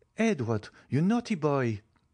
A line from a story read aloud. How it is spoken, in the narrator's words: exclaimed Madame de Villefort